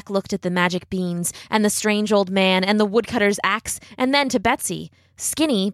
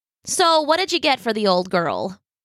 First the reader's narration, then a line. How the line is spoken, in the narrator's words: Mother asked